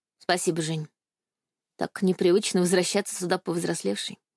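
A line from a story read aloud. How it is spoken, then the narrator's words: Soft, smiling. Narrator (Russian): мягко улыбнулась я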